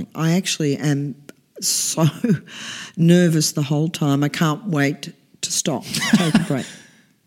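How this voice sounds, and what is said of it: Hoarse, strained voice. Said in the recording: “I've been singing hard this week. That's why I'm losing my voice.”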